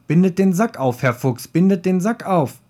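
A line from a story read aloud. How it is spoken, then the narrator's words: Called out. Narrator (German): rief ihm die Katze zu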